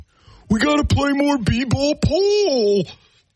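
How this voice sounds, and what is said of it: Imitates a sports fan's voice. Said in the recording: “my best Piston fan imitation.”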